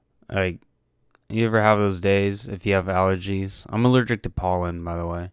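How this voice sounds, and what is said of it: Slightly raspy voice. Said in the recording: “My voice is a little raspy. It's because allergies are destroying us today. ... My voice hurts”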